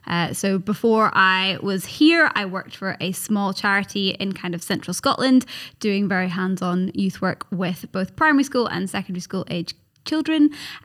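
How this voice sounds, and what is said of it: Regional accent with a twang. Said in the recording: “your lovely regional accent ... there's a little twang here and there ... There is a massive twang”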